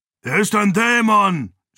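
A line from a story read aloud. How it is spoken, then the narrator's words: Man screaming. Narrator (German): schrie ein Mann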